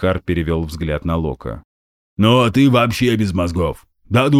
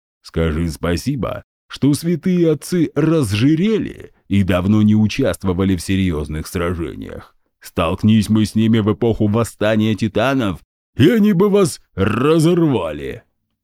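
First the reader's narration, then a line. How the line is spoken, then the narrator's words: Booming. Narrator (Russian): прогудел Гундахар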